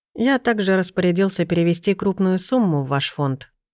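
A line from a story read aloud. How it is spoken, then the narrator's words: Calm. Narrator (Russian): говорю спокойно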